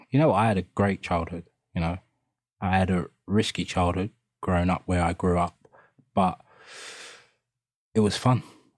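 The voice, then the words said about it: East London accent. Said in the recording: “you've got that East London accent. You're from Hackney originally, right?”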